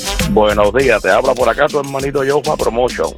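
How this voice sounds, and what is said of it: Radio announcer voice. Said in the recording (Spanish): “Tremenda voz de locutor te gasta”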